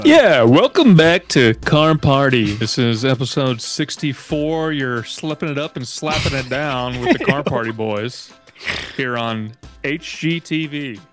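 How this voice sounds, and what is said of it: Radio announcer voice. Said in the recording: “give me your best radio voice. I feel like you got a good one.”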